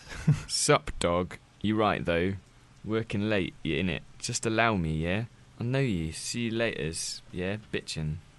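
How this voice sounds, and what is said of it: Reads text in put-on accent. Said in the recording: “You didn't have to read it out in some kind of accent, did you?”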